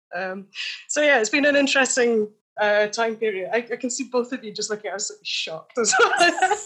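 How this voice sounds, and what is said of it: Scottish accent. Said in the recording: “I do know what it's like to have a Scottish accent”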